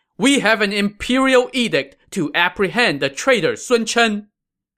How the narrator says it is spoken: As they rushed in, they shouted

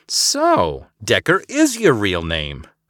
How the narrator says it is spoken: Eliza cackled from the galley

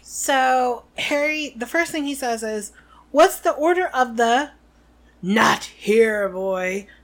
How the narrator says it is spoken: snarled Moody

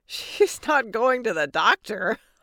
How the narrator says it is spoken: laughed

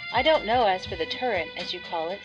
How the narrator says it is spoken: said Michael

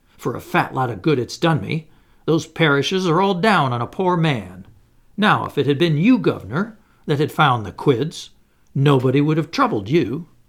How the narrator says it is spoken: I cried

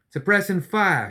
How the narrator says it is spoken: she shouted back

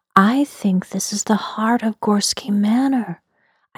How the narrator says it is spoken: I said softly and plaintively

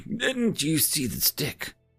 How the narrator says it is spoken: He just sighed and told me

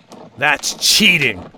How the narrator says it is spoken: Old Tom growled through teeth that had grown long and sharp

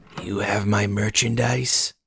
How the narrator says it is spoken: He rasped

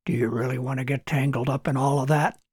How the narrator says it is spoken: whispered Robert

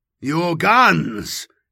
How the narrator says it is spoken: spooled Shikanthus's auto-trans, as it made sense of the creature's guttural growls

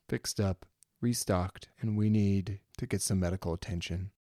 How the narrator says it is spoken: she says as she sighs

